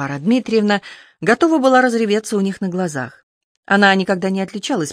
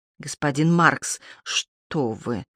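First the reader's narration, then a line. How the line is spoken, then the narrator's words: Priest mumbling. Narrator (Russian): пробормотал батюшка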